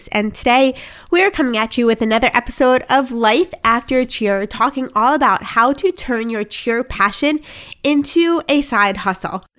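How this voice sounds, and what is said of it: Voice still affected by illness. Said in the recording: “I'm just coming off of COVID. You can still hear it in my voice”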